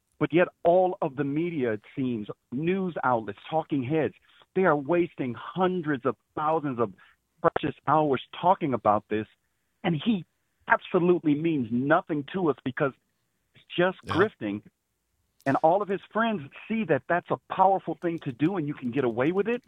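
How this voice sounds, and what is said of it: Deep polished radio-style voice. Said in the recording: “has the best radio voice I've ever heard. ... It was a great radio voice.”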